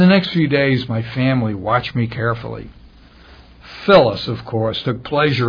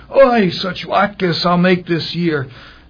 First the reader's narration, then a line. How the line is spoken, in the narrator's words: she exclaimed